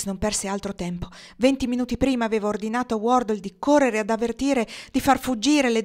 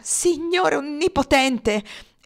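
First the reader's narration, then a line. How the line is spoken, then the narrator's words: Furious exclamation. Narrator (Italian): esclamò Alex inferocito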